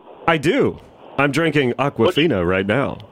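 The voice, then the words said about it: Sultry, seductive voice. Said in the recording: “sexy voice”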